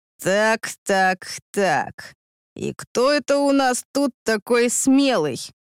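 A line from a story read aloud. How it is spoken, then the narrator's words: Sudden growl from behind. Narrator (Russian): Как гром среди ясного неба позади рыкнул Андрей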